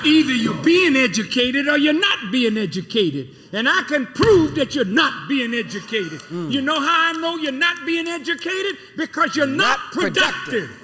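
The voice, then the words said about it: Raised, loud voice. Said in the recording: “raising my voice.”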